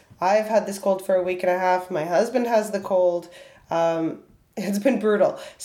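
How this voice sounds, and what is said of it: Hoarse voice. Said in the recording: “My voice is a little bit hoarse ... before my normal voice is back”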